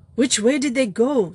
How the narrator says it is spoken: snapped Valentin

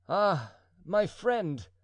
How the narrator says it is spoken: cried the duke

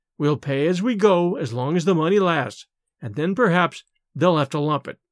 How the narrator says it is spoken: Miss Lydia would calmly go on with her sewing and say

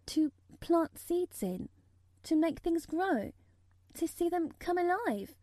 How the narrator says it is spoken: Mary faltered

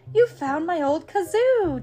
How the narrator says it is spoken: James exclaims

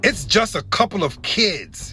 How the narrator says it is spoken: he growled

